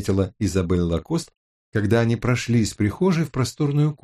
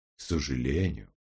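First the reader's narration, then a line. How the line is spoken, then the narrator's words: Even voice. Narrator (Russian): ровным голосом ответил Гамаш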